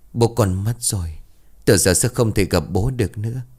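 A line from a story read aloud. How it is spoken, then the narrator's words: Tearful, low, gentle. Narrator (Vietnamese): Rừng rừng nước mắt, cô liền trầm giọng nhẹ nhàng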